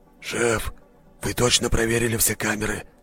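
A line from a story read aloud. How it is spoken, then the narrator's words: Whisper from behind. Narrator (Russian): раздался позади шепот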